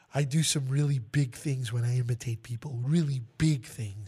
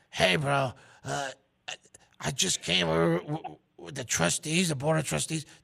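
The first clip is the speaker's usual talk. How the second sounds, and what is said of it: Imitates another person's voice. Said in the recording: “Kind of creepy how well you can impersonate him”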